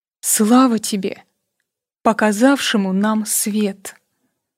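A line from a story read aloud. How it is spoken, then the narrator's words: Whispered. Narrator (Russian): шептали губы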